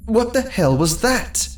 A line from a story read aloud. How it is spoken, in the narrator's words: shouted to no one in particular